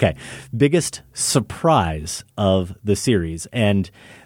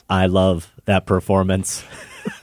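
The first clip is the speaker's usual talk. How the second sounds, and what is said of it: Stiff, wooden imitation of an actress. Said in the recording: “That was my impression of her as Queen Amidala ... Pretty stiff. Pretty stiff.”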